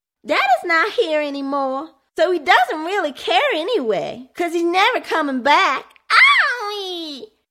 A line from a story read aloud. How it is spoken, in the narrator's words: screeched